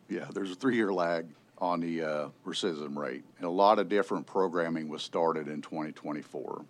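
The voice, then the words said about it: Noticeable regional accent. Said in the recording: “my accent probably throws everybody off”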